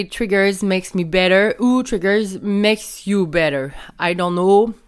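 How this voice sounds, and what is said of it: Accented English, not fluent. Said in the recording (French): “Je suis pas la, la, meilleure en anglais, là. Sorry pour mon accent.”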